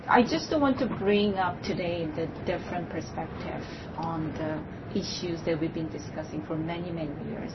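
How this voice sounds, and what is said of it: Shaky nervous voice. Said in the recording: “I'm a bit nervous. My voice is really shaking”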